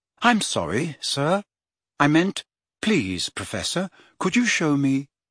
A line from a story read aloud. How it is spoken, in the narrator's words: Riddle's expression hardened for the most fleeting moment, before he said in an unrecognizably polite voice